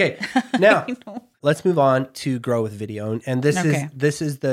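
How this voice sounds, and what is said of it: Usual voice. Nothing is said of it.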